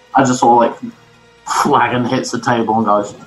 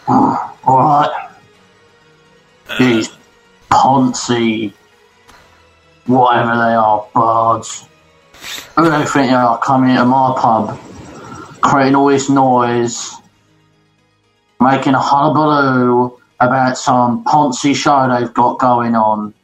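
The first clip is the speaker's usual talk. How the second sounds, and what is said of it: Rough common accent, less posh. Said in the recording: “put on a voice so that I don't sound quite as like out there and posh. So I sound like a little bit more common.”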